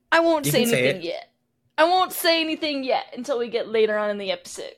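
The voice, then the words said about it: Speaks in a put-on accent. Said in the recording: “Where did that accent come from?”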